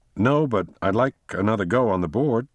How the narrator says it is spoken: said Tara, eagerly

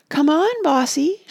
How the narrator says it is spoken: said aloud in a sweet, false voice

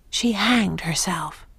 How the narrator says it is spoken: she whispers

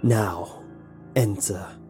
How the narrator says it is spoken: said the raspy, dark voice of the guide

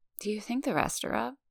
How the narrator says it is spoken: She mumbles

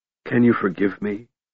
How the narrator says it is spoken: he whispered

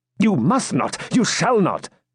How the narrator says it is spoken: exclaimed Ivanhoe

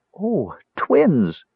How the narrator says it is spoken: she cried joyfully

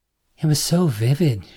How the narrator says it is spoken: she said, sighing

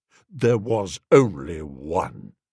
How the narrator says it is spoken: said Claude coldly

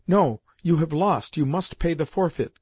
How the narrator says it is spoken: cried Seriosha

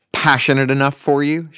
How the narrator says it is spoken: she snapped

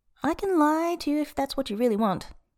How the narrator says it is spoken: Tang Fan says, cheerfully

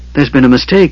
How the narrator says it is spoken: he whimpered

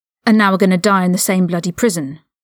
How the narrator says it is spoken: Ron snapped back

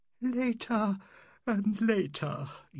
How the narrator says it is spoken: yawned Mrs

